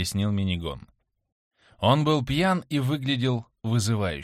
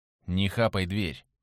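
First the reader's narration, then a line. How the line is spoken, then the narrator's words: Cold. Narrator (Russian): холодно сказал Шабан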